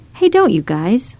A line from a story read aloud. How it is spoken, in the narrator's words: Micah told them firmly